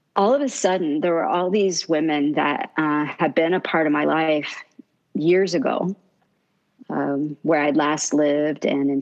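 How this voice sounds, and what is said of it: Choked-up, emotional voice. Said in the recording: “I'm probably getting choked up.”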